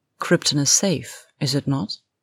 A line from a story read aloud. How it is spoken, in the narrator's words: began calmly